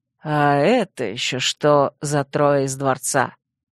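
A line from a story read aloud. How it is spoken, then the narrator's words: Defiant growls, one after another. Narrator (Russian): вызывающе прорычали один за другим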